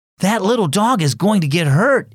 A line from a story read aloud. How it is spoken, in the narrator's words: exclaimed Emmett